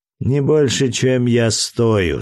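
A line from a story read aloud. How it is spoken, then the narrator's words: Laughing reply. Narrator (Russian): смеясь ответил Геркулес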